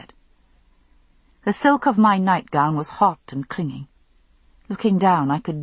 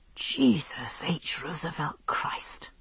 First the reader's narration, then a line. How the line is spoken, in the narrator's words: I muttered, breathing deeply as my heart slowly returned to normal